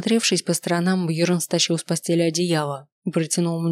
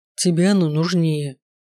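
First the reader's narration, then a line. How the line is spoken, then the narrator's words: Grumbling. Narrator (Russian): проворчал он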